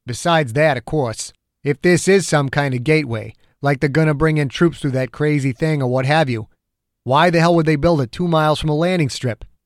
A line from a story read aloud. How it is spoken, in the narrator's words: Dew grunted once